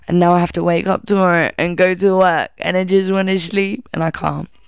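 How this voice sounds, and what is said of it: Tired, exhausted voice. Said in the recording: “I'm fucking exhausted ... like you can hear in my voice. I'm fucked.”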